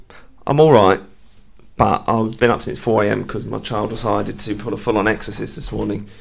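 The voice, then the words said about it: Slightly raspy voice. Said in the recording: “my voice is a little bit raspy”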